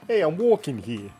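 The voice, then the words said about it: Put-on New York accent. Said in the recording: “My only American accent I can do. ... Sounds like a New Yorker is right in the room with me.”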